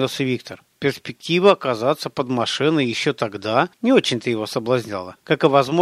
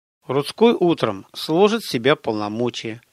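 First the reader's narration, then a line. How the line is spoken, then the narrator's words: Plain. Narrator (Russian): ответила Светлана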